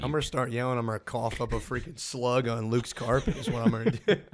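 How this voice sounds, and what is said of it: Hoarse, strained voice. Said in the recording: “voice is a tad hoarse ... couldn't physically speak”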